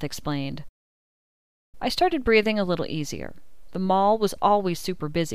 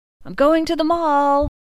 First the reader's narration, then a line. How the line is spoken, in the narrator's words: yelled over my shoulder